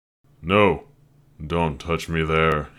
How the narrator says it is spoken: he growled

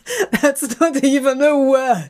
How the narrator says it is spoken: He laughs again, the sound so carefree and joyous

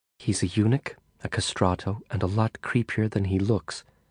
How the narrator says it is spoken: she whispered enigmatically

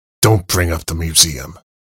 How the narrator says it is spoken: he said, his tone becoming sharper once more

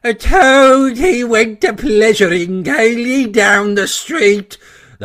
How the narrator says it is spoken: the chief weasel began in a high, squeaky voice

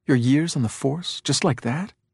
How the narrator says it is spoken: He whispered harshly

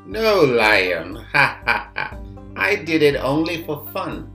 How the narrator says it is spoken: The boy laughed, saying

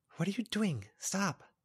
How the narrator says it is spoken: She whispered

